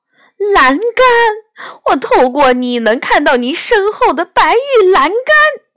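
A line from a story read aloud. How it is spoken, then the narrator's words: Sudden shout. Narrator (Chinese): 他突然大叫道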